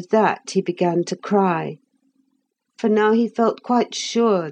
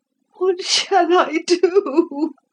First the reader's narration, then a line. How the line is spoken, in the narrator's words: sobbed